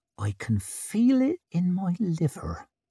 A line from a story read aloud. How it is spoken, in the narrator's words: whispered Isern